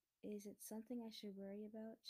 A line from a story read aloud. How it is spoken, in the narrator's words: she says